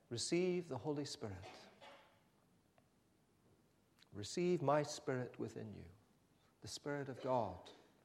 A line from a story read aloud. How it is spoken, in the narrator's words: he breathed on them and said